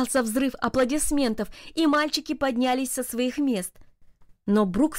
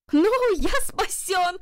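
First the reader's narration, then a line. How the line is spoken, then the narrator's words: Shout. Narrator (Russian): закричал Джарвис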